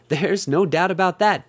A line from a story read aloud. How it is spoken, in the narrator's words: Bonnie said with a little chuckle